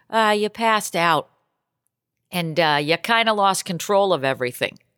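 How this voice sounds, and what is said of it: Put-on Boston accent, somewhat New York. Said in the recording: “Anissa's Boston accent as best I can. ... A little New York-y.”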